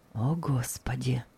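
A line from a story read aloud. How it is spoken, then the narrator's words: Whisper. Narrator (Russian): шептали его губы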